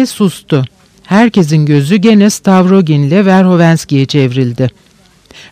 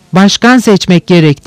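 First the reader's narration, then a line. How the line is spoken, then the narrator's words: Group shouting. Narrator (Turkish): diye bağırıştılar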